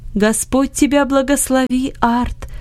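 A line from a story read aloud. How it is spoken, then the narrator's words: Joyful voice. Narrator (Russian): сказал Иосиф радостным голосом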